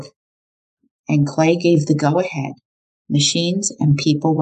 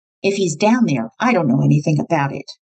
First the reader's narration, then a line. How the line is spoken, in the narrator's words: With a hard, cold, icy stare, she snapped